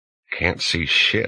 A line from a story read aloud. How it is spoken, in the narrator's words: whispered to the Finn